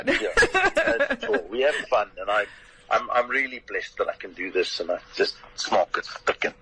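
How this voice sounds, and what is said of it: Distinctive own accent. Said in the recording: “you've just got the way to say it as an accent. I can't do the accent ... the accent, I'm afraid, is all yours”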